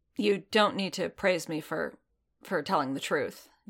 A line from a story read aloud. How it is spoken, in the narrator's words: Din muttered, his jaw working